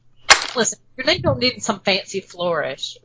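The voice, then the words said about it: Southern US accent. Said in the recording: “that sounded so southern”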